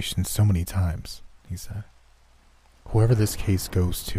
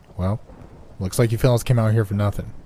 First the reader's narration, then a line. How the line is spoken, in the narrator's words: he said